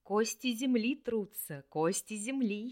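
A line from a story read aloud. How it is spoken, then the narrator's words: Giggling from behind. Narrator (Russian): хихикал где-то сзади Хельд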